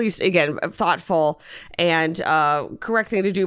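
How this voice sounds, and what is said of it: Usual voice. Nothing is said of it.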